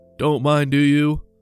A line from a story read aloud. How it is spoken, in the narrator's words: he asked himself with a chuckle